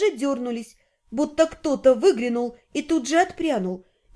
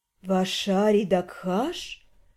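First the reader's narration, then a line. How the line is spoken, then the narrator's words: Slow languid drawl. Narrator (Russian): Медленно и томно протянула женщина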